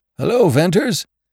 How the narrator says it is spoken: a familiar voice cried, hoarsely

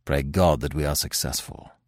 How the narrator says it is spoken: added Manfred solemnly

